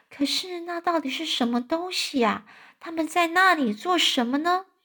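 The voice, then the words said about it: Quiet, hushed questioning voice. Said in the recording (Chinese): “小声的问说”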